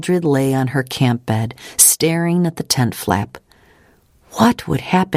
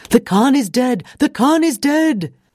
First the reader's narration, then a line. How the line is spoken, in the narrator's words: Mildred heard a man's voice yelling